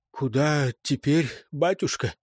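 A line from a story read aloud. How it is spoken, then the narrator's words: Unsteady whisper. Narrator (Russian): неверным шепотом спросила одна из теней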